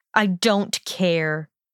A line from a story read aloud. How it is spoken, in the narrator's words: he spat